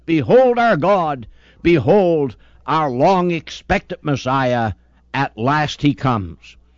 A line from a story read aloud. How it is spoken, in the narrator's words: exclaim with a mighty shout